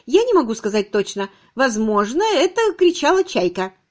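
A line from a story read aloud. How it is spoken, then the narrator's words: Cheerful voice. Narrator (Russian): Мисс Кэсси бодрым голосом сказала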